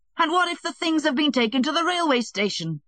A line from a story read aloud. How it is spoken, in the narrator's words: he roared in desperation